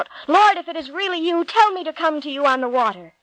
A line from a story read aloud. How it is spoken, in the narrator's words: Peter, always impulsive, cried out